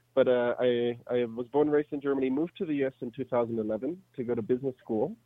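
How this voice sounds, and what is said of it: Slight German accent. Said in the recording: “I'm from Germany originally, that's why I have a little accent.”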